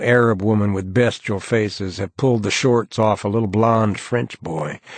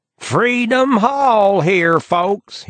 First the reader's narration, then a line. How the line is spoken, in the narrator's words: he screams in his phony Texas accent